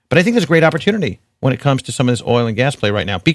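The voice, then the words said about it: New York accent. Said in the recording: “my New York accent, I guess, is coming through here”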